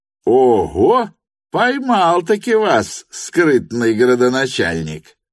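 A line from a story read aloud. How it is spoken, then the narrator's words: Laughing cry. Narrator (Russian): возопил, смеясь, Петр Степанович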